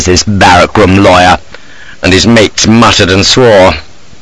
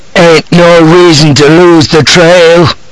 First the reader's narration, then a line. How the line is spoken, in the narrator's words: cries a voice, a buck-skinned brute called Skate